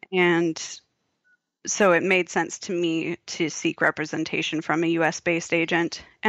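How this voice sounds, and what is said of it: American accent. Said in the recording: “If you can't tell from my accent, people, that's where I'm from.”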